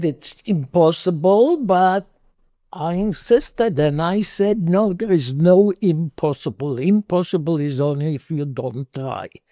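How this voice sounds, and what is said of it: Israeli-accented English. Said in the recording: “when I opened my mouth with my accent, the people that live in the Middle East know immediately that I'm an Israeli”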